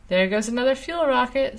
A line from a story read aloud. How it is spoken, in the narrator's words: Sue called out